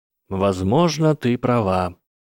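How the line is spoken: Calm reply. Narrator (Russian): спокойно ответил Гарри

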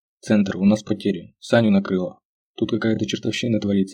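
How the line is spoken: Plain. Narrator (Russian): сказал он

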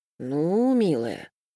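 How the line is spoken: Drawled. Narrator (Russian): протянул Юрий

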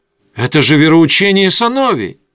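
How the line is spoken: Exclaimed. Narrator (Russian): воскликнул Асра

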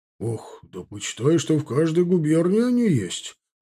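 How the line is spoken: Exclaiming. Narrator (Russian): воскликнул Лазарев

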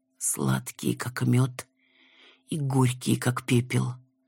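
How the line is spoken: Breathed out. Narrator (Russian): выдохнул Рен

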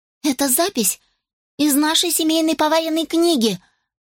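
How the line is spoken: Timid babbling. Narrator (Russian): пролепетала Росс

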